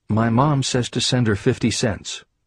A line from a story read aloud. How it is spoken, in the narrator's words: Meekly, the child replied